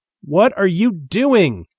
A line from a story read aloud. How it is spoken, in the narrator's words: he shouted